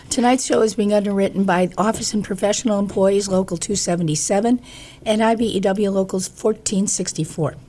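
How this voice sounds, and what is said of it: Congested voice from a cold. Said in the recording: “I have a cold, so I sound a little weird”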